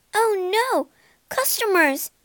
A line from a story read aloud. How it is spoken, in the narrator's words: she cried